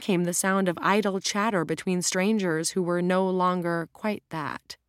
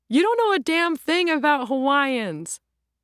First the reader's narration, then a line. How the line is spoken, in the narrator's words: Laughed